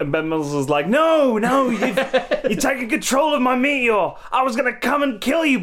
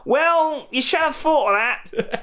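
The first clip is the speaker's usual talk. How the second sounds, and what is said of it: Unidentified put-on accent. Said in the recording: “I don't know what accent that is”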